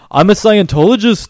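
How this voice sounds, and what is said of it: Imitates another person's voice. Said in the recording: “my Isaac Hayes impression ... Spot on.”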